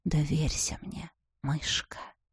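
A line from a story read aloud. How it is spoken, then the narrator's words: Whisper. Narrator (Russian): шепнул невидимый кот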